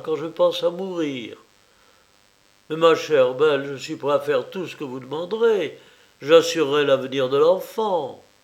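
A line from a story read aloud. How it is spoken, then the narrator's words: Exclaimed. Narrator (French): s'écria Varvara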